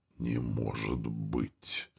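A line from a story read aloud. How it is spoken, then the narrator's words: Whispered. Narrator (Russian): прошептал он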